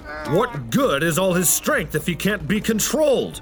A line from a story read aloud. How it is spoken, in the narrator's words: yelled King Philip